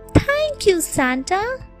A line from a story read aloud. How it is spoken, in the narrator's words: Nona excitedly shouted